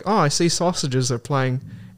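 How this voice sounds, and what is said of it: Exaggerated British accent. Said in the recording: “this is my British accent. I know it's great. It's up there with Dick Van Dyke.”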